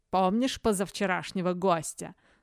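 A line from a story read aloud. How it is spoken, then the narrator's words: Mocking question. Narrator (Russian): насмешливо спросил барон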